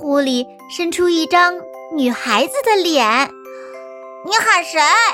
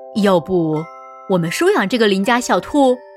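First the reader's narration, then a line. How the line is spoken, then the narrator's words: Plain. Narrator (Chinese): 我对爸爸说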